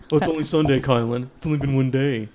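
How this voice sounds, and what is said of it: Imitates another person's voice. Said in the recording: “that's a really good impression ... That's actually pretty good.”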